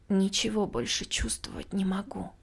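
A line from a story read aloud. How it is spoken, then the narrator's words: Tearful breaking whisper. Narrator (Russian): срывающимся на плач шепотом возразила я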